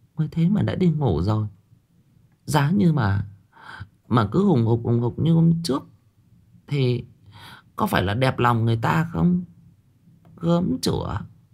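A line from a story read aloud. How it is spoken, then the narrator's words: Muttering. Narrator (Vietnamese): Bà Tư lẩm bẩm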